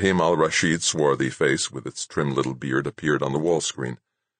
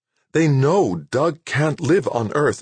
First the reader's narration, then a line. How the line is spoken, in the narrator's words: Joanna blurted